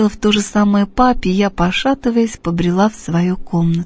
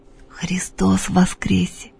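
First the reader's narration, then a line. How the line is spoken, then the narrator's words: Whispered. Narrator (Russian): прошептала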